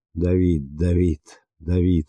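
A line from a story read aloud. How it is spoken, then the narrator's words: Delirious repeated moaning. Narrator (Russian): стонала она в забытии все снова и снова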